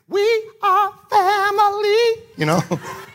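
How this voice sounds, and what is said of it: Singing in falsetto. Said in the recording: “You guys like that falsetto?”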